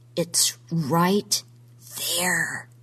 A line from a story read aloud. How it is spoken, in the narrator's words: he whispered